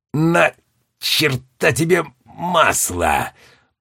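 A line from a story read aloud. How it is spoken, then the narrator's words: Hoarse wheeze. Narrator (Russian): прохрипел Роджер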